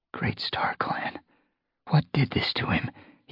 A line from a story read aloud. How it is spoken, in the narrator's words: whispered